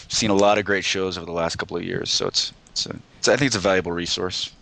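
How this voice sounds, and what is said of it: American accent. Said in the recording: “his lovely accent, ... is from the U.S. ... from Colorado”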